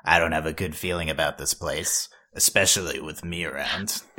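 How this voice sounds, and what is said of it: Imitates a cartoon character's voice. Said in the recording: “Your crow impression is impeccable, ... It's really good.”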